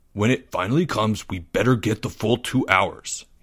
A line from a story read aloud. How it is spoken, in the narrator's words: he grumbled